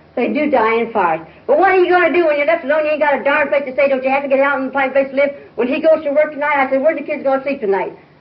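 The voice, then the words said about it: Yelling angrily. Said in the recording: “you're yelling at me... I don't see why you're yelling at me”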